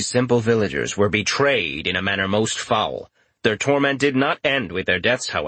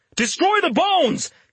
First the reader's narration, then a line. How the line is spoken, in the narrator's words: he shouted